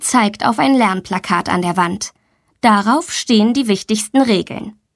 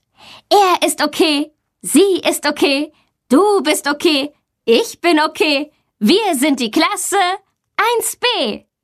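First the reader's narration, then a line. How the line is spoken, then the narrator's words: Children speaking loudly together. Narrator (German): Alle Kinder sprechen laut mit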